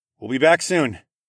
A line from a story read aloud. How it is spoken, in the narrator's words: called out